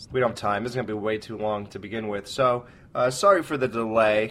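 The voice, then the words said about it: Voice sounds different from illness. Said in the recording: “Alex was sick. ... I was sick. So if my voice sounds different ... It does.”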